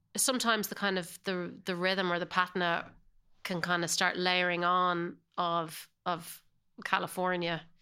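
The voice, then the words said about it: Irish accent. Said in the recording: “your accent hasn't changed a bit. Not a bit. ... you still say it with an Irish accent ... I definitely hold on to my Irish accent”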